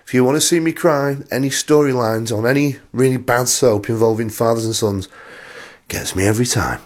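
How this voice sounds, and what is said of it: Voice strained from a cold. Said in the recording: “why my voice went. ... I've just got a bit of a cold.”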